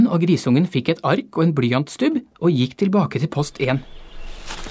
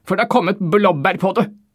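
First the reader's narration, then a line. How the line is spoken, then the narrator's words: Low grumbling. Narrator (Norwegian): brummet dåsemikkelsjefen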